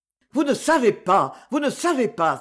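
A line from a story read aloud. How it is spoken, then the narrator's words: Exclaiming. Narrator (French): s'écria-t-il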